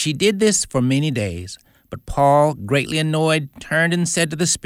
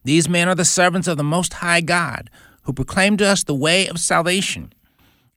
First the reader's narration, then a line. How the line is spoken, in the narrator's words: The girl cried out, saying